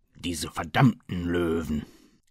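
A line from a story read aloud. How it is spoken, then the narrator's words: Desperate growl. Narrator (German): knurrte Murphy verzweifelt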